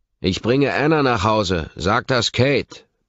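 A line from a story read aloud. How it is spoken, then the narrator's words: Shouting into someone's ear. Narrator (German): brülle ich ihm ins Ohr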